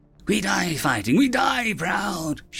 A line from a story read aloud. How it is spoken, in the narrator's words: she hissed at herself, a feminine voice